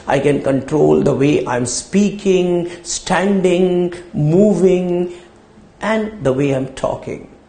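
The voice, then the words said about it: Strained voice, speaking low-pitched. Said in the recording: “my voice is a little bad today, so I'm talking in a low pitch”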